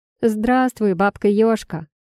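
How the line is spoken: Smirking snort. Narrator (Russian): хмыкнула Ирка

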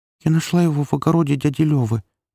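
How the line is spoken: Babbling. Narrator (Russian): пролепетала Таня

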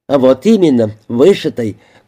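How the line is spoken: Short laugh. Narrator (Russian): коротко хохотнула мисс Брейс

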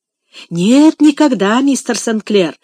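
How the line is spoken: Fervent exclamation. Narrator (Russian): горячо воскликнул Том

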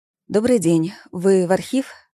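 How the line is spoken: Trembling-voiced question. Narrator (Russian): спросила я дрожащим голосом

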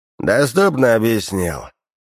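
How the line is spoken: Snorting remark. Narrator (Russian): он, хмыкнув, добавил

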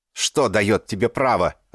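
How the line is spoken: Shouted out. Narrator (Russian): выкрикнул он

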